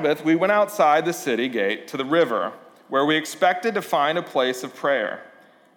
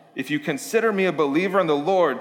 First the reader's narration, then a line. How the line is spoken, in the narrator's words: she said